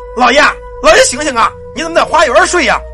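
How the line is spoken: Shouting. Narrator (Chinese): 旁边有人喊

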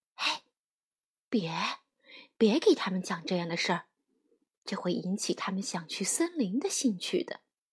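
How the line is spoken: Low, reproachful. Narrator (Chinese): 熊妈妈低声埋怨爸爸

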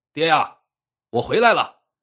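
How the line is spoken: Loud booming shout. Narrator (Chinese): 一个大嗓门喊道

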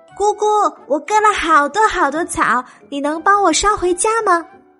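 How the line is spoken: Loud question. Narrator (Chinese): 小白兔便大声的问

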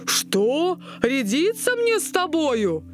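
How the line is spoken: Shouting. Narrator (Russian): закричал он

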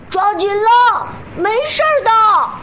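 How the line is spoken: Shouted. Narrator (Chinese): 小灰兔对他喊道

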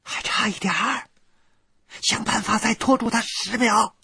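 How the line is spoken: Shouting from above. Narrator (Chinese): 在洞中岩石最高处的雪莉杨对我喊

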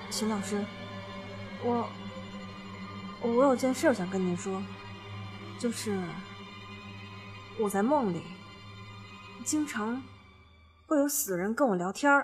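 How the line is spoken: Low voice. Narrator (Chinese): 谭卓低声地说

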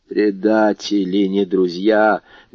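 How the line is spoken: Muffled grumble. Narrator (Russian): глухо проворчала Карконта

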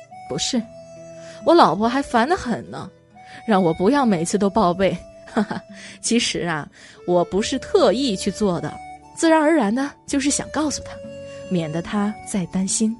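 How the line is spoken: Smiling. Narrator (Chinese): 领导笑笑说

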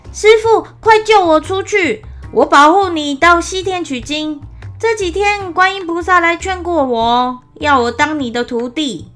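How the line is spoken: Eager shout. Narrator (Chinese): 他一见到唐僧就喊道

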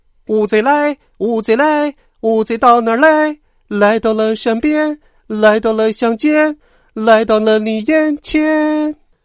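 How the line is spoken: Loud booming singing. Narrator (Chinese): 大嗓门乌贼星人偏偏大声的唱起歌来

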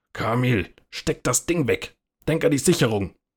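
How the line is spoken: Snapping gruffly. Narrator (German): schnauzte

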